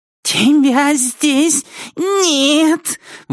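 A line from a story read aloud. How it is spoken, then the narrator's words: Shrill piercing child voice. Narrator (Russian): выговаривает Раймон Эндрю Жобер своим детским писклявым голосом, который вонзается в спертую духоту зала, как сверкающий нож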